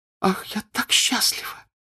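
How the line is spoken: Tearful happy reply. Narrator (Russian): отвечала она, улыбнулась сквозь слезы

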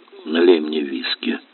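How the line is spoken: Hoarse male request. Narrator (Russian): хрипло попросил он

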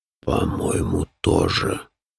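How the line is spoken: Low, hoarse voice. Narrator (Russian): подтвердил низкий хриплый голос

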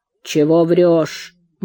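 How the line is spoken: Gloomy reply. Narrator (Russian): мрачно отозвался черкес

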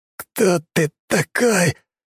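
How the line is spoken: Hoarse, spitting blood. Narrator (Russian): прохрипел, выплевывая кровь

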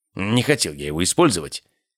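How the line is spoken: Muttered. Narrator (Russian): пробормотал Голд Льюис

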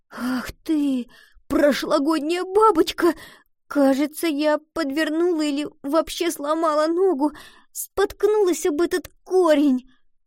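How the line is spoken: Tearful complaining. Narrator (Russian): Пожаловалась Гретхен, снова всхлипнув

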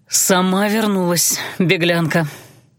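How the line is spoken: Contented exhale. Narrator (Russian): довольно выдохнул

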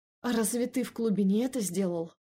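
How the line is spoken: Strained, forced out. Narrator (Russian): Выдавила я через силу

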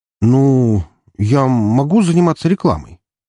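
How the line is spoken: Coughing, confused question. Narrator (Russian): закашлявшегося Троя, и тот спросил растерянным тоном

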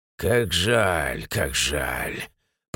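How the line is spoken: Drawling, fake sympathy. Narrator (Russian): протянул командир с фальшивым сочувствием

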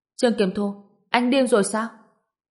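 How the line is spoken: Loud question. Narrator (Vietnamese): Lâm Tử Đồng lớn tiếng hỏi

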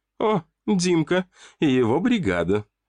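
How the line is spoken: Laughing. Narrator (Russian): рассмеялась Кристина

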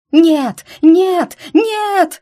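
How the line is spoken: Frenzied scream. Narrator (Russian): завопила слетевшая с катушек покойница

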